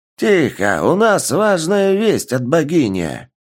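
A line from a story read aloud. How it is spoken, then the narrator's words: Loud bark, elderly woman. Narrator (Russian): Громко рявкнула пожилая тарру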